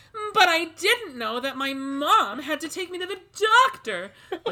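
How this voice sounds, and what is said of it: Overacting child actress voice. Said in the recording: “good child actress impression... they just overemphasize every word... a great impression of like an overacting kid”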